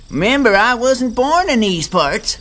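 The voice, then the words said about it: Southern American accent. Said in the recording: “I already have a southern accent. ... Wow, you really do have a southern accent. ... That is really good”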